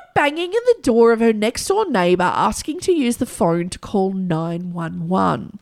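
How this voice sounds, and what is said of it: Usual voice. Nothing is said of it.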